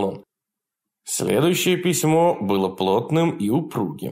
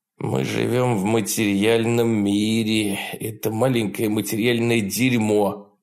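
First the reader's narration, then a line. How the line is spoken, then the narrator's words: Grumbling. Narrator (Russian): проворчал Джефф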